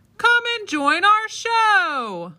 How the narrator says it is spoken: they called out

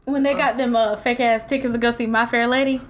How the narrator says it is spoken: I chuckled

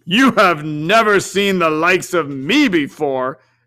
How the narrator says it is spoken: exclaimed the spirit

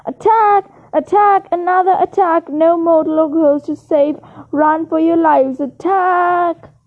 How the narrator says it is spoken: screamed

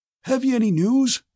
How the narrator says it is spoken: asked the high-pitched, wheezy voice of a very old man

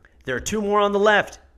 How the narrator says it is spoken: he shouts

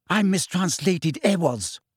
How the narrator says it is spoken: said Hermione furiously

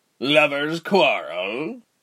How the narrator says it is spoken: one of the deckhands asked

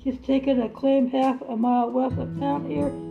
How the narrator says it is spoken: said Pa

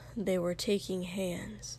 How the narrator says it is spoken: he said quietly

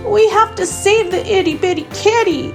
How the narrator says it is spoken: exclaimed Rubble

